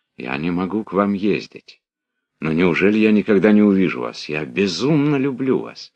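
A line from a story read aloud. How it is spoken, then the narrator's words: Tender voice. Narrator (Russian): Анатоль нежным голосом сказал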